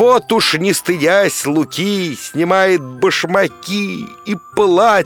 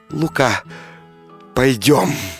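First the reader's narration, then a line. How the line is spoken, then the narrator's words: Tender quiet whisper. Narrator (Russian): купчиха мгновенно вспыхнула огнем и прошептала нежно, тихо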